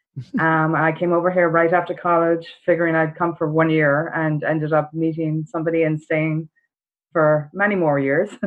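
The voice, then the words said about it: Irish accent. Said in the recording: “I've got a bit of an accent. I'm from Ireland originally.”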